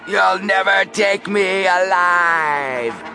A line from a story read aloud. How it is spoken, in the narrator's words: screamed Big Al